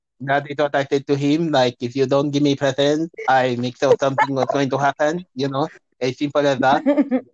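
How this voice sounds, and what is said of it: Imitates another person's accented voice. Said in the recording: “that's not how I sound ... She doesn't like the impersonation. But some people told me it's quite bang on ... It's not bang on.”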